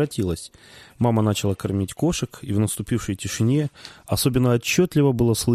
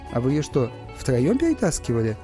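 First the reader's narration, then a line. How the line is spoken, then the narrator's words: Sarcastic laugh. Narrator (Russian): Папа саркастически рассмеялся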